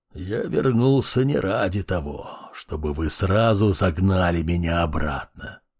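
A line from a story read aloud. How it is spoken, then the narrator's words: Muttering. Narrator (Russian): пробормотал он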